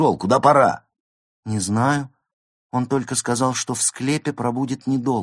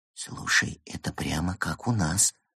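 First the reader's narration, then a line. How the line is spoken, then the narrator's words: Quiet remark. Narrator (Russian): тихо заметил пингвин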